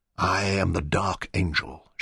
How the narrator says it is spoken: whispered

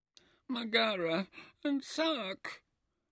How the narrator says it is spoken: Merikara sobbed

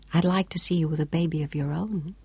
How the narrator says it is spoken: whispered

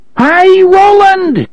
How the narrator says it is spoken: Cuthbert screamed deliriously

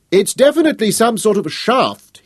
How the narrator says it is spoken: shouted back

